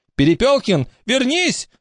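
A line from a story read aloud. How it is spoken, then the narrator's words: Pained shout. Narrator (Russian): закричал завуч, словно Поликарпу Фомичу наступили на ногу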